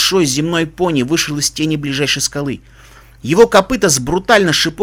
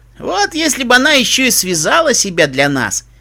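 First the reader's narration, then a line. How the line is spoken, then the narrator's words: Giggling pony. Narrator (Russian): хихикнул вооруженный пони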